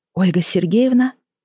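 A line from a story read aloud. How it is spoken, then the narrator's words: Timid. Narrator (Russian): начала она робко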